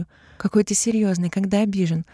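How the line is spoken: Laughing. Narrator (Russian): рассмеялась она

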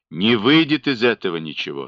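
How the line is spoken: Grim, firm. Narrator (Russian): сказал мрачно, твердо

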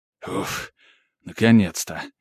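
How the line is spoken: Relieved mutter. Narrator (Russian): облегченно пробормотал маг

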